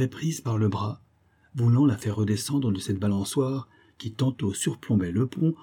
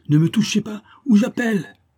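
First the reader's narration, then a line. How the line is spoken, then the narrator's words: Screaming over storm. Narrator (French): hurla Ariane dans le vacarme de la tempête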